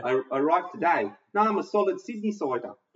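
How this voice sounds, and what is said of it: Poor put-on New Zealand accent. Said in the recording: “That's a terrible accent. ... New Zealand is just getting stereotyped to hell tonight.”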